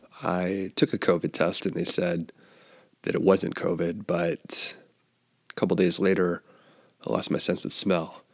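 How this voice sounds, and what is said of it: Scratchy voice. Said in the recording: “my voice is a little scratchy. You may be able to detect that. I am getting over a cold.”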